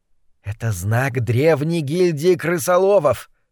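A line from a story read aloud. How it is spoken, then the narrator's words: Whispered. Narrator (Russian): прошептала злокозня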